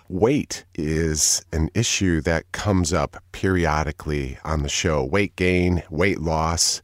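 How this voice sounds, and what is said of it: Low, congested voice from a cold. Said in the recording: “I have a little bit of a cold, ... I then have the low timbre that I always covet in my voice”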